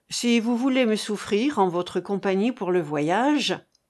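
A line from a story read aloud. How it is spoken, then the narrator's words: Plain. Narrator (French): dit Huriel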